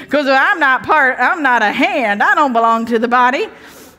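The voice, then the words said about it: Put-on American Southern accent. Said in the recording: “I don't know why the foot's Southern. ... that's the first accent that came to my head.”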